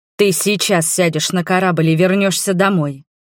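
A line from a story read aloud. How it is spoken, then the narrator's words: Growled. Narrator (Russian): рыкнул он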